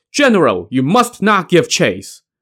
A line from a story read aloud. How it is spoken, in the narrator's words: Shan Tinggui shouted